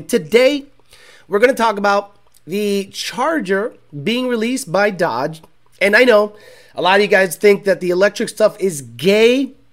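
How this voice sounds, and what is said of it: Sick, under-the-weather voice. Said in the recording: “I apologize for my voice. I've been sneezing all day, a little bit under the weather”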